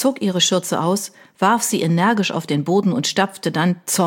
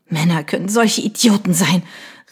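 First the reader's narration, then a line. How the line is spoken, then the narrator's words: Sobbing outcry. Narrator (German): rief sie schluchzend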